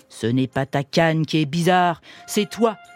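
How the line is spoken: Sneering. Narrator (French): ricana Compère Gredin

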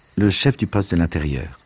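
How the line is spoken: Curt reply. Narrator (French): répondit-il sèchement

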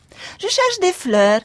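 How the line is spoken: Deep male sigh. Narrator (French): répondit-il avec un profond soupir

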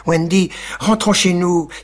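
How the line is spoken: Exclaimed together. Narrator (French): s'écrièrent John et Michael

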